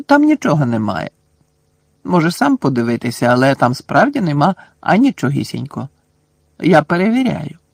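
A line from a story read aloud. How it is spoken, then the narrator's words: Calm. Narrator (Ukrainian): спокійно сказала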